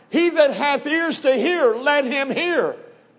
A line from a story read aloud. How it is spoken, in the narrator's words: Jesus cried